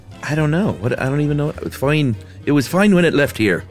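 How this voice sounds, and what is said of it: Put-on Irish accent. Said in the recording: “I was gonna do it in an Irish accent,”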